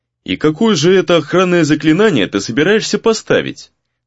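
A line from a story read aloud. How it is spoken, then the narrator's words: Mocking question. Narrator (Russian): насмешливо поинтересовался Гризли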